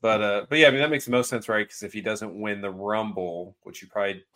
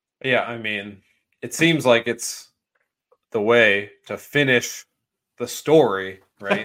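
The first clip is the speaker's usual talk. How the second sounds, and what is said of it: Slow, paced imitation of another person. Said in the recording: “I was trying to be my worst Cody impression there. Sorry, I tried to pace it out.”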